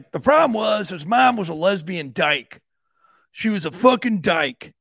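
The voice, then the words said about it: Imitates another person's voice. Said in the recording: “That's my Jim Terry impression.”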